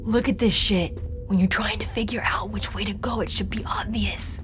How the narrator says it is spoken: Dante whispered

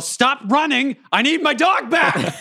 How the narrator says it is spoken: And I yell

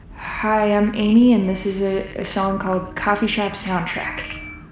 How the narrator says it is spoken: You mumble

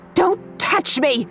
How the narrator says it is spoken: shrieked

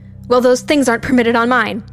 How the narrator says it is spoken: I screamed back

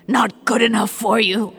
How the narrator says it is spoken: she snarled

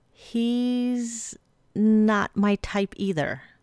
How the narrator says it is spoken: Arizona said slowly

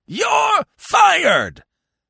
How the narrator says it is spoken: bellowed old Blumenfield, swelling a good bit more

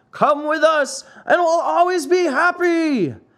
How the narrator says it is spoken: shouted the 100 and more boys in the wagon all together

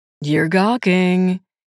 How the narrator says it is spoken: he said in a deep musical voice

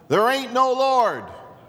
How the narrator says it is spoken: would get so angry at her proclamations, and he would shout out

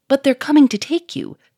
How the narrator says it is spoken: cried Victor

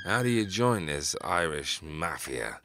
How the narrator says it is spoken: he slurred

